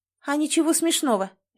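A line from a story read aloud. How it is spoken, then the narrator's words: Sharp reply. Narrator (Russian): резко ответила женщина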